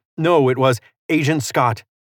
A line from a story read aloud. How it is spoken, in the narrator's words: the female agent snapped